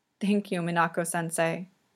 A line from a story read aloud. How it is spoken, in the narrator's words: Yuri murmurs into her sweater